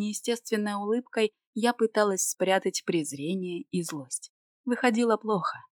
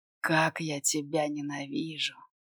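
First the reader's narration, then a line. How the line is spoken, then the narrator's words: Wordless whisper. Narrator (Russian): Без слов шептал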